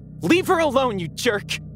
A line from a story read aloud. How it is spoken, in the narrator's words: yelled